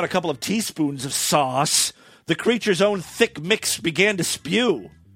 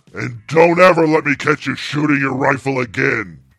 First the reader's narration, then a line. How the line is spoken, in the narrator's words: the Sasquatch grunted